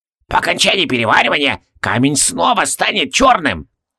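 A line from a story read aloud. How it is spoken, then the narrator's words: Shrill squeal. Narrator (Russian): взвизгнул алхимик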